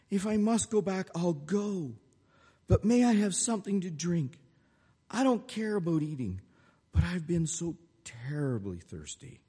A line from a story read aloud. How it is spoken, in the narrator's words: sobbed